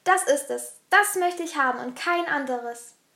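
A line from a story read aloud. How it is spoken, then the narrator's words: Almost shouting. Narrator (German): schrie er schon fast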